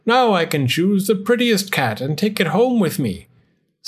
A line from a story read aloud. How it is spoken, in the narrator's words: cried the old man joyfully